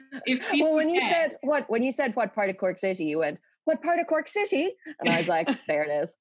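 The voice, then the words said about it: Dublin Irish accent, flat one-note. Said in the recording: “except for the odd kind of English vowels ... I'd say I've quite a quintessential Dublin accent because it's a very city accent. It's not kind of up and down. It's on the one note.”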